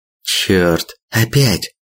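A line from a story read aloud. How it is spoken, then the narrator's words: Hissed. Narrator (Russian): прошипела Игоревна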